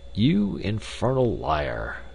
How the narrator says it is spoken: murmured Tarp Henry

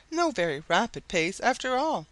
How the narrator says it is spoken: exclaimed Mrs

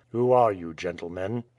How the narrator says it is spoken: he asked in Russian, in a cold tone, but free from its usual rudeness

